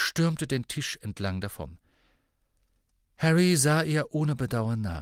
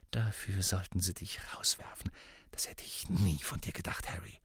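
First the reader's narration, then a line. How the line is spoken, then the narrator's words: Quiet hiss. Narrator (German): sodass nur Harry sie hören konnte, und zischte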